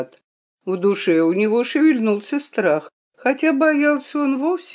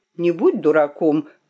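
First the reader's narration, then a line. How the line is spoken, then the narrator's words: Sharp shout at self. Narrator (Russian): прикрикнул он на самого себя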